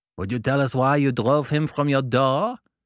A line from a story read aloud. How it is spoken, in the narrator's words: growled Mokoko